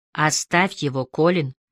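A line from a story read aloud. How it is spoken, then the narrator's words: Weary. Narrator (Russian): усталым тоном произнесла Эмили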